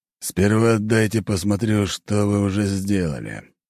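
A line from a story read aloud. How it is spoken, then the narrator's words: Sighing. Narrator (Russian): вздохнув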